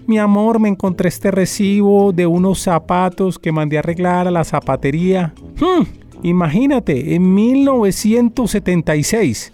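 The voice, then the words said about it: Old Colombian paisa woman's voice. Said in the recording (Spanish): “Estoy haciendo mi voz de viejita paisa. ... Espero que sea buena la imitación.”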